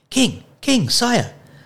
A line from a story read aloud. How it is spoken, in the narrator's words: Despero cried